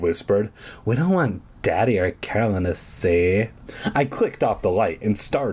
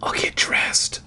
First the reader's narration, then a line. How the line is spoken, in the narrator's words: I whispered